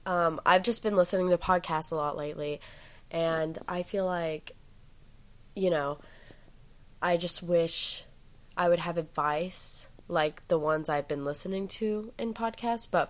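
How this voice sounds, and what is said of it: Sick-sounding voice. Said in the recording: “I sound a little sick. ... I'm currently recovering from a sickness”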